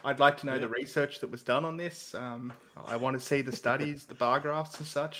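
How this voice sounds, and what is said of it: Australian accent. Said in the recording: “the Australian accents ... our accent”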